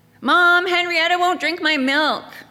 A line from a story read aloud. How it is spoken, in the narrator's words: she yelled at me